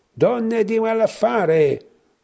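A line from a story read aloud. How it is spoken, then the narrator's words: Friar yelling. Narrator (Italian): urlava frate Vito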